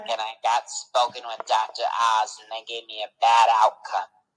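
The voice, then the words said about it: Imitates another person's voice, vocal fry. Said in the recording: “You actually sound like Big Ange with vocal fry.”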